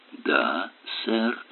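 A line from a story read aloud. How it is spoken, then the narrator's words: Whimpering. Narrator (Russian): проскулил Хаббл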